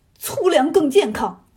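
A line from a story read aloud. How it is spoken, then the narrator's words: Angry. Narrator (Chinese): 朱刚烈 气得够呛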